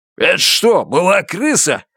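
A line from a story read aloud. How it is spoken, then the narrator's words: Bark. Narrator (Russian): рявкнул Джордж Баханан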